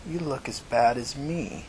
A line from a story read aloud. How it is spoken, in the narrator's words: said with a little laugh